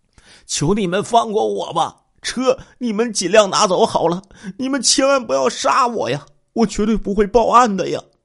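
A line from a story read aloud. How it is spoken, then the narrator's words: Desperate pleading. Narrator (Chinese): 他一边说呀，一边就跪在了几个歹徒的面前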